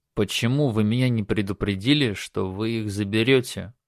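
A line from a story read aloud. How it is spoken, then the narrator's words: Quiet question. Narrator (Russian): Негромко спросил Федор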